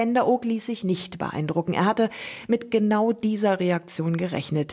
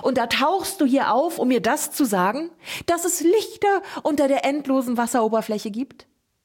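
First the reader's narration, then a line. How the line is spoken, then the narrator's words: Shouted. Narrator (German): schrie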